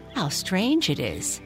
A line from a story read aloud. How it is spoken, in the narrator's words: said